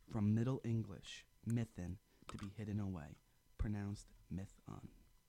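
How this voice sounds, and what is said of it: Formal announcer-style reading voice. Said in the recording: “announcer voice”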